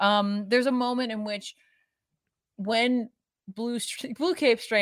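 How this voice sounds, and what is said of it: Usual voice. Nothing is said of it.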